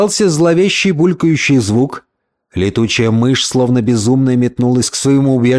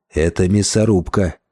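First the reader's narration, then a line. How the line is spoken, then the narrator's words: Quiet. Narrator (Russian): тихо произнес Хантон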